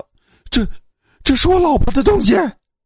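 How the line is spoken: Shrill cry. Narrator (Chinese): 周游 尖声叫道

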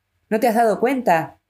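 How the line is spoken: Hysterical exclamation. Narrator (Spanish): exclamó Ismain, histérica

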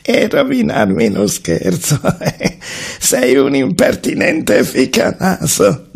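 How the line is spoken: Laughing reply. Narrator (Italian): disse rispondendo e ridendo Bilbo

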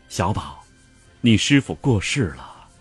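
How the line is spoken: Gentle soft voice. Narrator (Chinese): 苏全柔声道

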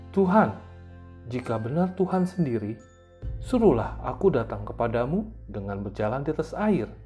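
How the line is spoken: Calling out. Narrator (Indonesian): Petrus berseru

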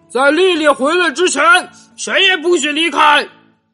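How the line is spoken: Roaring. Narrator (Chinese): 他咆哮着说

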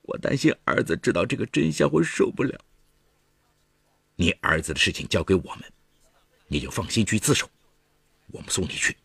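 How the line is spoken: Crying. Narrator (Chinese): 陈红慧哭着说

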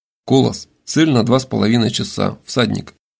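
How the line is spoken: Quiet. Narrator (Russian): Воронов тихо произнес

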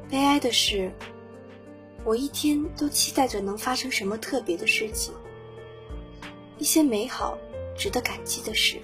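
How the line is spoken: Girl, sighing wistfully. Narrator (Chinese): 女孩对着镜头感叹

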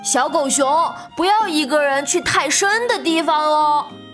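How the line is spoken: Loud. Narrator (Chinese): 比比大声地说

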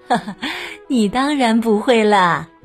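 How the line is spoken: Mother, laughing. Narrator (Chinese): 妈妈笑了笑，说

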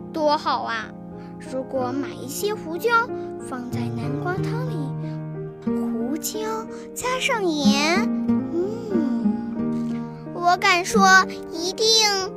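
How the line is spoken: Muttering. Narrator (Chinese): 他嘀咕着

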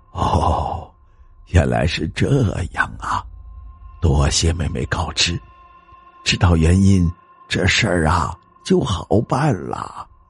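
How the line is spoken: Soft, smiling. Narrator (Chinese): 老太太脸上露出了笑容，轻声说道

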